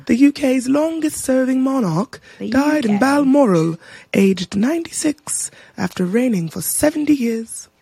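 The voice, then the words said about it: Put-on British accent. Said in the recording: “I wanted to talk in a British accent”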